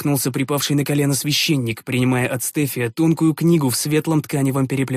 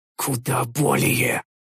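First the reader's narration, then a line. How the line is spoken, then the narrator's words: Barely audible, strained. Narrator (Russian): Едва слышно отозвался я, чувствуя, как внутри груди что-то едва не лопается от дикого напряжения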